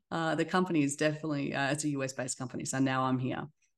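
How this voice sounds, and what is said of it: Australian accent. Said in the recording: “the Australian accent gets me every time”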